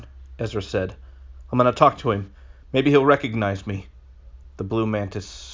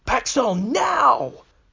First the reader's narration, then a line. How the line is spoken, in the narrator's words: Bet screamed